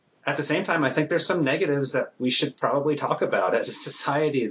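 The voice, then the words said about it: Minnesota accent. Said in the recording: “I'm Minnesota ... I knew I heard that accent.”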